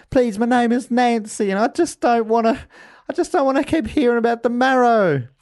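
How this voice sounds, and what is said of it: Put-on Nantucket accent. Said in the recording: “This Nantucket accent is really hard to tie down. ... You're doing very well, though.”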